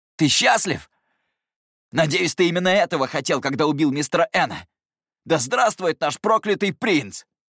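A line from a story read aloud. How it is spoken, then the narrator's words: Angry hoarse pained shout. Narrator (Russian): В гневе, хрипло, через боль крикнул я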